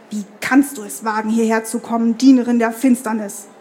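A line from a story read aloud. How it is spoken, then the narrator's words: Hissing voice from behind. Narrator (German): fauchte die Stimme hinter ihr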